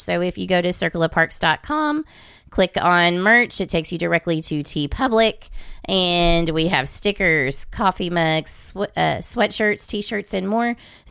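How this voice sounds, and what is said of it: Raspy, hoarse voice. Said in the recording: “I sound a little raspy”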